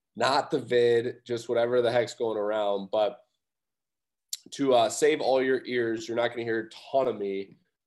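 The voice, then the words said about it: Sick-sounding voice. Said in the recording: “hear in my voice that I am in shambles. I've been pretty sick this week.”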